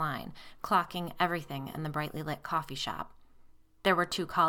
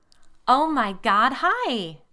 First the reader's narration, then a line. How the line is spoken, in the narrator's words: a woman exclaimed